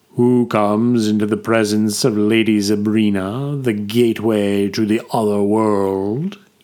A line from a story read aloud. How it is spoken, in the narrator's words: intoned in a fittingly deep voice